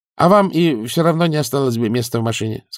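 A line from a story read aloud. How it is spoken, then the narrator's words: Plain. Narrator (Russian): сказала Клавдия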